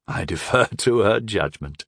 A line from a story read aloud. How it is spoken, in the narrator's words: chuckled